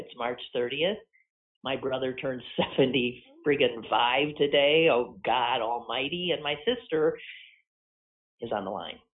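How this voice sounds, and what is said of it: Slightly growly, rough voice. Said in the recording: “my voice is a little growly this morning”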